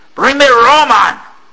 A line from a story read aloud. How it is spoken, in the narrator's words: the captain roared